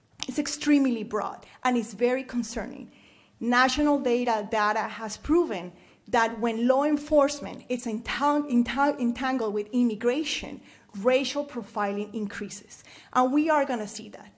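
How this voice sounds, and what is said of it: Speaks with a noticeable accent. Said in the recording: “every time that I open my mouth and people hear my accent”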